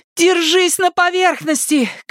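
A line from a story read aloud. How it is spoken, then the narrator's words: Shout. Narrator (Russian): крикнула Нита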